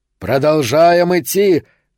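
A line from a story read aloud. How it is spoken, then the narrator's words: Shout. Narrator (Russian): крикнул Сильвера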